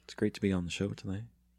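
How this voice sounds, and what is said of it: Smooth public radio announcer voice. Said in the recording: “You sound like you're on NPR or something. ... this is my NPR voice.”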